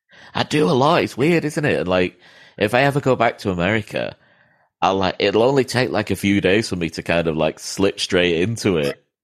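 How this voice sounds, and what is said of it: American accent. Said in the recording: “you definitely have the American accent, but I hear that you slip into the English lingo”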